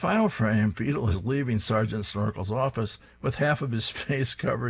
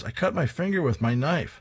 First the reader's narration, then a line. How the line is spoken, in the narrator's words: Private Rocky exclaims